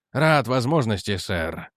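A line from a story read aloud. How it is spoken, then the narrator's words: Muttering. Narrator (Russian): пробормотал Эдвардс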